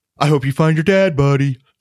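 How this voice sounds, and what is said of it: Impression of Narwhal from Elf. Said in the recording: “your Norwal impression”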